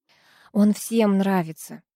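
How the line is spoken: Sighed. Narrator (Russian): вздохнула

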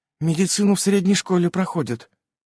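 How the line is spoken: Quiet excuse, young girl. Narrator (Russian): тихо оправдывалась младшая дочка

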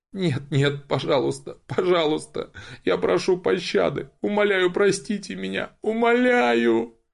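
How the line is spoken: Whining, drawn-out sobbing. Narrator (Russian): Заныла пленница и принялась протяжно рыдать

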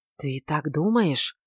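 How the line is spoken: Whisper. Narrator (Russian): прошептал он

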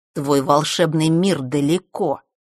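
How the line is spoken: Muttered through clenched teeth. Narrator (Russian): процедил он

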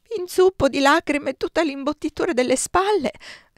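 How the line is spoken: Sobbing. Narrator (Italian): singhiozzai

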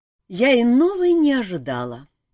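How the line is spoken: Sighing. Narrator (Russian): вздохнула Морриган

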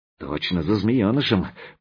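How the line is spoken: Whisper. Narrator (Russian): шепнул Заточка

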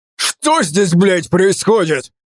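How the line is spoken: Roar. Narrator (Russian): проревел

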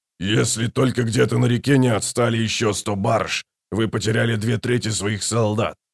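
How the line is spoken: Grumbling. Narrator (Russian): проворчал Брут

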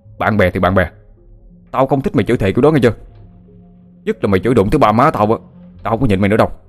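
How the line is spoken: Furious loud shouting. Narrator (Vietnamese): An cũng hùng hổ như muốn ăn tươi nuốt sống lấy thằng bạn, rồi hét lớn

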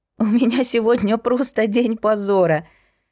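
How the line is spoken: Laughing. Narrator (Russian): смеясь, произнесла Настя

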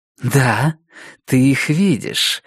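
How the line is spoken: Laughing while speaking. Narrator (Russian): сказала Роза Морена, все еще смеясь

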